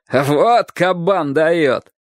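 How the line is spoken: Adults shouting, laughing. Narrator (Russian): многие взрослые смеялись его выходке и кричали

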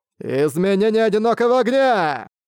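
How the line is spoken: Shouted. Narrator (Russian): он крикнул

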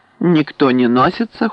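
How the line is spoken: Cold reply. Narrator (Russian): холодно ответил он

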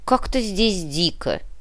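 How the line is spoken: Bird-like mumble. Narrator (Russian): пробурчал птицей

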